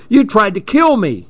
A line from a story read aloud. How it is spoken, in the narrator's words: he screeched